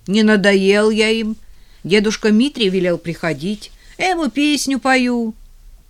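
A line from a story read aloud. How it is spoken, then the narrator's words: Loud assurance. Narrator (Russian): Ленька же громко уверил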